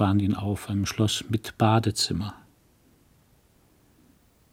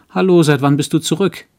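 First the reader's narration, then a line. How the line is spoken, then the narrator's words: Calling out. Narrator (German): rief sie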